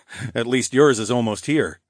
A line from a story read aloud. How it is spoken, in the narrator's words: I chuckled